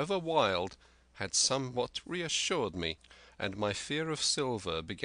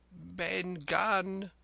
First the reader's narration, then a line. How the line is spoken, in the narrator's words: he answered, and his voice sounded hoarse and awkward, like a rusty lock